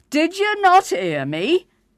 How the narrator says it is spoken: the cross innkeeper bellowed

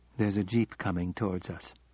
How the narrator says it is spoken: she said calmly

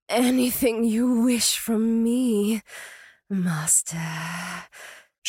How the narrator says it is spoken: she purred

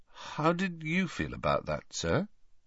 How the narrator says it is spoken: asked Harry hesitantly

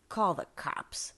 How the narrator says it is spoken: she slurred

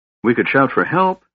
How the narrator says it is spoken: suggested Tika, trying to keep her voice steady

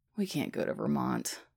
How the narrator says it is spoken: he sighs

